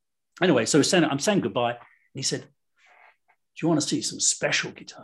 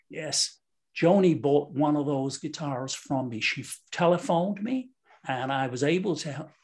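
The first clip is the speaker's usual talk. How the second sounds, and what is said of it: Bad George Green accent impression. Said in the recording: “I've got a very bad George Green accent”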